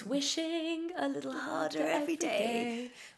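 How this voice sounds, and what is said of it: Strained, constipated-sounding creature voice. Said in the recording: “my Samoyed impression ... it's just constipated. It's just like he's just constipated ... entirely based on the CBBC adaptation”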